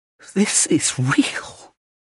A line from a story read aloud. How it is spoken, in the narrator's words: he breathed